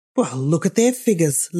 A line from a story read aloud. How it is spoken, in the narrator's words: laughed Miss Lavish